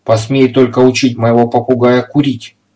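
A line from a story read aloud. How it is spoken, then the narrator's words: Stern. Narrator (Russian): строго проговорил он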